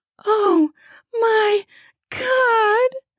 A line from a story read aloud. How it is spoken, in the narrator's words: cried as I felt her pussy continue to spasm